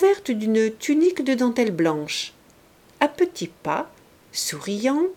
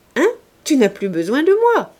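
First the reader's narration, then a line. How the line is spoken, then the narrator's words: Cheerful aside in ear. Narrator (French): dit gaiement monsieur de Plouguerne à l'oreille de Clorinde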